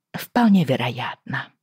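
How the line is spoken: Muttering. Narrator (Russian): пробормотала я

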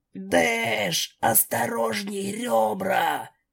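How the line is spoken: Hoarse, strained voice. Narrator (Russian): Мой голос был хриплым из-за травмы и из-за того, что Дэш была готова задушить меня в объятиях

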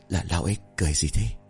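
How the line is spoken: Frightened whisper. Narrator (Vietnamese): Thằng Long bấy giờ thì thầm sợ hãi nói

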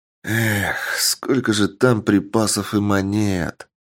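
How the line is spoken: Sighing, pained boss. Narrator (Russian): Вздохнув, сказал босс

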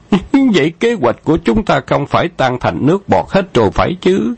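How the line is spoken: Feigned alarmed cry. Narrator (Vietnamese): Khâu Trọng giả bộ thất thanh thốt lên

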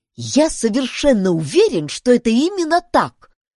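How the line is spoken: Exclaimed. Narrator (Russian): воскликнул Ларри

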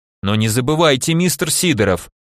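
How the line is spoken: Stern rebuke. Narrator (Russian): строгим голосом одернул я его

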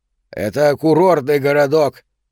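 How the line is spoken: Loud. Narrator (Russian): громко сказал Марчелло

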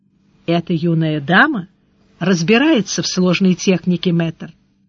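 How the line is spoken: Quiet. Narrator (Russian): Тот тихонько сказал

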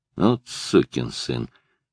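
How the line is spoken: Quiet. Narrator (Russian): тихо сказал он

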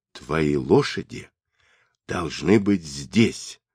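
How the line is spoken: Whisper. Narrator (Russian): почему-то шепотом сказал Борчу

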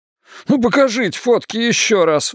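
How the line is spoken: Pleading. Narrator (Russian): взмолился капрал

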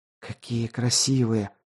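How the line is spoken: Admiring whisper. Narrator (Russian): восхищенно прошептала Хилола

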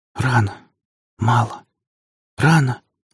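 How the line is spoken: Woman's whisper. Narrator (Russian): разобрал Алексей шепот своей спутницы

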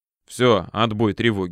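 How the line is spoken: Plain. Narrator (Russian): сказал я Варе

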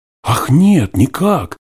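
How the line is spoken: Startled cry. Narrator (Russian): вскрикнула Наль, узнав голос Николая

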